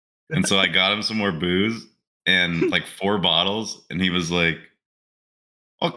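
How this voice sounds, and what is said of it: Usual voice. Nothing is said of it.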